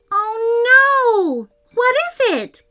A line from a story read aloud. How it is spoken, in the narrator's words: cried Ruby